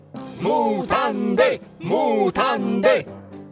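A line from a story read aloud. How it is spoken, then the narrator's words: Crowd shouting. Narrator (Italian): gridavano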